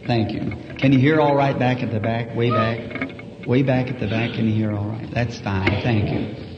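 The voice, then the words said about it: Very loud voice. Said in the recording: “Don't I have a very loud voice?”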